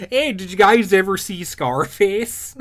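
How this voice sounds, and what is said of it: Put-on Minnesota accent. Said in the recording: “I was about to give him like a Minnesota accent.”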